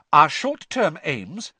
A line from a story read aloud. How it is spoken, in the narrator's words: said Hermione, speaking even more loudly than Ron